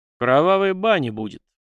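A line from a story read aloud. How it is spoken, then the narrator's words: Grumbling. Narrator (Russian): проворчал Степан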